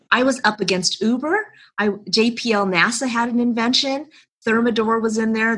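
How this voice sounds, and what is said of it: Chicago accent. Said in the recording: “that's your accent. I hear Chicago. Now I hear Chicago.”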